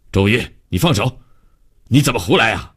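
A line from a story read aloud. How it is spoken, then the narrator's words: Stern scolding. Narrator (Chinese): 王科长厉声训斥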